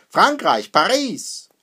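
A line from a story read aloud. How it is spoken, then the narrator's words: Laughing. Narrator (German): lacht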